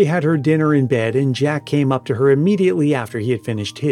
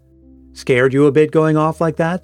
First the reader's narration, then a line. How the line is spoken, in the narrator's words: suggested Jack